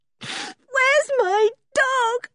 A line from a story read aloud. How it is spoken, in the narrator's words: She sobbed